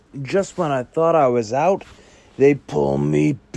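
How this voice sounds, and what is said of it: Poor imitation of another person's voice. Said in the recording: “worst Al Pacino impression you've ever heard in your life”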